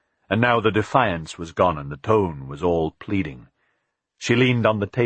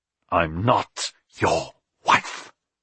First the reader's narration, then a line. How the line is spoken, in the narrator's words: she hissed